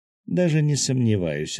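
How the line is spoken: Laughing. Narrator (Russian): рассмеялась Аня

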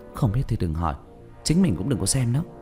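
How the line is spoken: Low voice. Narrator (Vietnamese): Tôn Ánh Nguyệt hạ giọng

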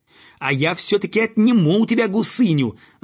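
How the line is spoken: Yelling at full strength. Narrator (Russian): заорал он, что есть мочи

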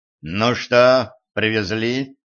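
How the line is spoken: Crisp, clipped. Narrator (Russian): отчеканил Гранди

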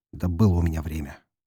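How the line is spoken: Muttering. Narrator (Russian): пробормотал я

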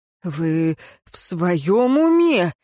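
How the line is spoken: Strained wheeze while struggling. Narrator (Russian): просипел Динталь в тщетной попытке освободиться из рук Роэна

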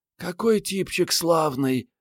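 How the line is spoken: Admiring sigh. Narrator (Russian): вздохнула Мариетта, любуясь портретом

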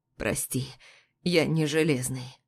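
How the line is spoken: Hoarse. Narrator (Russian): хрипит Павел

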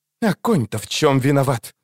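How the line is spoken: Angry hiss. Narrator (Russian): Зло прошипела Мильва

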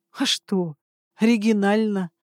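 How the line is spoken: Short laugh. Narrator (Russian): хохотнул Эдвилл

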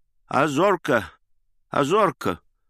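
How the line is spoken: Trembling toothless old voice. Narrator (Russian): прошамкал он дрожащим старческим голосом

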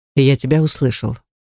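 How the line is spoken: Calm reply. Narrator (Russian): по-прежнему спокойно ответил Рейтан

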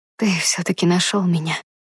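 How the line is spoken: Tearful whisper. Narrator (Russian): прошептала, вытирая слезы

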